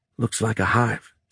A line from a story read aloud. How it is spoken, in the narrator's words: Timothy whispered